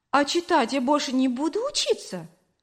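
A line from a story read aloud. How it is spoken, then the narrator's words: Hurt, offended question. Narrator (Russian): обиженно спросила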